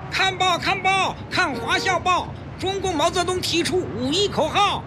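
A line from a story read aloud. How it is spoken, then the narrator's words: Newsboy hawking in crowd. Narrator (Chinese): 一个报童在熙熙攘攘的人群中奔走叫卖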